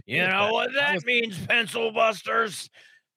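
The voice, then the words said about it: Imitates another person's voice. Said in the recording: “Trying to do my Johnny impression there”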